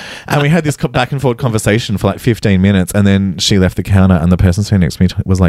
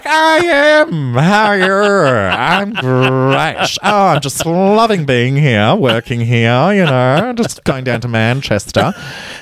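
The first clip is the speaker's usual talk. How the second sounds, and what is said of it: Put-on Kath and Kim accent. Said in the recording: “oh, we're doing Kath and Kim accents, are we? ... you making fun of her accent like that”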